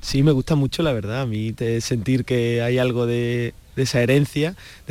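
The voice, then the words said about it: Sevillian Spanish accent. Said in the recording (Spanish): “ese acento tan sevillano”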